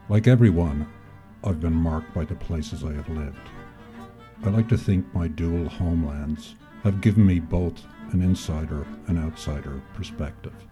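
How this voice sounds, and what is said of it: Irish-tinged Mid-Atlantic accent. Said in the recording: “my odd accent ... I'm originally from Dublin, Ireland, and after almost 40 years in America, I'm now in possession of what you might call a Mid-Atlantic accent”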